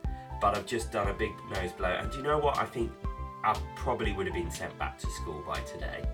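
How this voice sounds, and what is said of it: Nasal, congested voice. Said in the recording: “I'm a bit, you know, nasally. ... I sound a little nasally today because I've been ill.”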